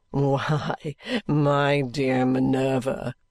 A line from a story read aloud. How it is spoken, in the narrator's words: answered Richard with his old gay laugh